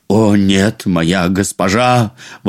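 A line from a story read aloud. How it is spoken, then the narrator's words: Exclaiming. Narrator (Russian): воскликнул он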